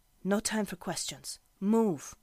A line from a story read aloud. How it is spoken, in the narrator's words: her mother's voice whispered harshly